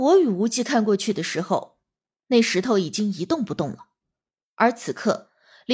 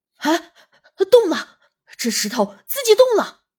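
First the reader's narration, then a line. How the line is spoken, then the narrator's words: Sudden shout. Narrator (Chinese): 黄万才喊了一声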